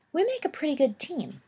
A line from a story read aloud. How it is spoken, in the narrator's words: James sighed sleepily